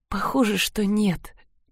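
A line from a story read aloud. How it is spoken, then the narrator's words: Quiet, slight smile. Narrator (Russian): тихо ответила она, слегка улыбнувшись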